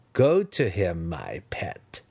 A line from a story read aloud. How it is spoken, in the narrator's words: Massage purred